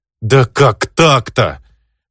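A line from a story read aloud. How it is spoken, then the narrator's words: Despairing howl. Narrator (Russian): взвыл я, понимая, что худшего расклада и быть не может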